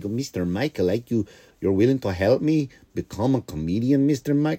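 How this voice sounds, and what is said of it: Weak attempt at Norwegian accent. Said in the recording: “he's Norwegian. I just can't do Norwegian accents ... In my head, I see a Norwegian guy. I just can't nail the accent.”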